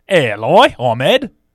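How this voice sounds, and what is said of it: Put-on Australian accent. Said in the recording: “Do an Australian one.”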